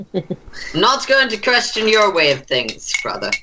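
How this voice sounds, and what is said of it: Put-on character accent. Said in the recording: “doesn't have to do this accent anymore”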